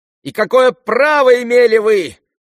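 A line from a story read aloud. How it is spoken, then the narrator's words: Unnatural shrill shriek. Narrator (Russian): завизжал самым неестественным голосом Ипполит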